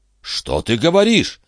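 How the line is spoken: Exclaimed. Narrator (Russian): воскликнул Жильдас Трегомен

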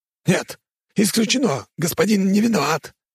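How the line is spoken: Shouted. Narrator (Russian): выкрикнул Один

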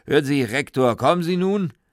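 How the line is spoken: Dean's deep voice calling. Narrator (German): die tiefe Stimme des Dekans, die rief

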